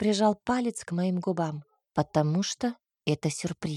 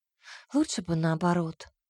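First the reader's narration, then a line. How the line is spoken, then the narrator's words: Sighing. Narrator (Russian): вздохнула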